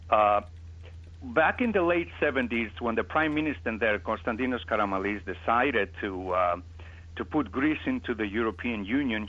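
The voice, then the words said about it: Greek accent in English. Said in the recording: “I come from Greece, as you can understand from my accent”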